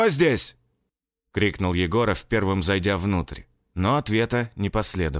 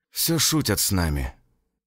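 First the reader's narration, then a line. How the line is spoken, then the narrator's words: Cat sighing from behind. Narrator (Russian): вздохнул кот где-то у меня за спиной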